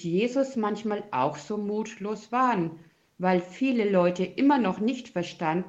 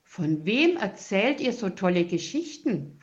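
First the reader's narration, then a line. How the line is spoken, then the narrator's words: Plain. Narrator (German): fragt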